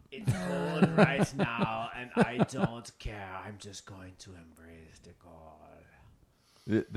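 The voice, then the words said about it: Imitates another person's voice. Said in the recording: “That's a pretty good impression. ... I've heard Wim Hof talk.”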